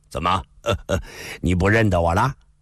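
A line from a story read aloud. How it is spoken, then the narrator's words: Smiling. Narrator (Chinese): 李寻欢微笑地说道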